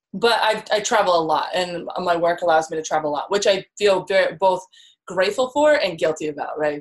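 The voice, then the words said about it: American accent. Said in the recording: “accent-wise, you're American?”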